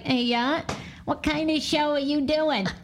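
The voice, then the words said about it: Imitated Maine accent. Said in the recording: “she's has a Maine accent. So it's more like”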